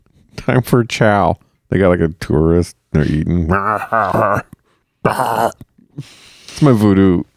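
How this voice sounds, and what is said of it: Put-on zombie voice. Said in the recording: “That's my zombie accent. ... Good zombie accent. ... It's similar to the New Zealand accent I've heard you do.”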